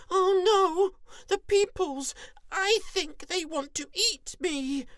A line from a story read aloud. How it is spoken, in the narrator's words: Pig pog's eyes grew as big as the skies and he squeaked